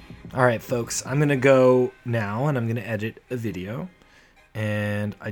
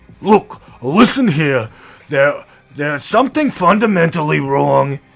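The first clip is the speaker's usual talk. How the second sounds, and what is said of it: Imitates another person's voice. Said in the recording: “That Bernie Sanders impression went south for the winter real fast.”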